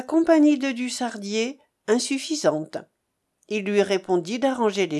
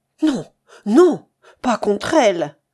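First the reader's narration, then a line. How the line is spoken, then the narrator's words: Exclaimed. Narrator (French): s'écria Frédéric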